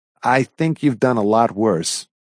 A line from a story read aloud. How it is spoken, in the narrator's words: I said